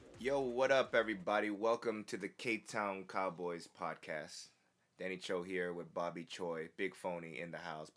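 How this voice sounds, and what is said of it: Lower, rough-sounding voice. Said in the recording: “I don't know if my voice sounds like lower... your voice sounds shitty”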